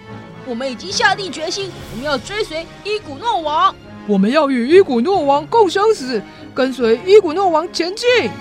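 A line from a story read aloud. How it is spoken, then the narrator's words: Soldiers shouting loudly. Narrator (Chinese): 士兵们高声地喊着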